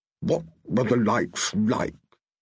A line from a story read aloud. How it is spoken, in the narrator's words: he muttered